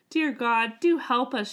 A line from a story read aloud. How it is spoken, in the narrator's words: she cried